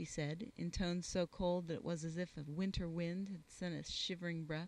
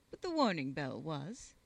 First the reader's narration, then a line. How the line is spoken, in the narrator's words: she snapped